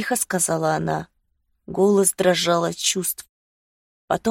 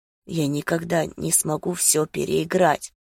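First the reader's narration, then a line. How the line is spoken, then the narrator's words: Hoarse. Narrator (Russian): сказал я хрипло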